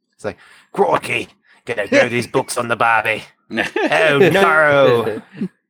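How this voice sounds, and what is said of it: Put-on Australian accent. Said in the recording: “could you do an Australian accent for him?”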